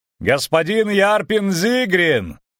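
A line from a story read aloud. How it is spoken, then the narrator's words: Shouted up from afar. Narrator (Russian): крикнул Виллен Треттен Мертен краснолюду, вцепившемуся в отвесную скалу в 20 локтях от земли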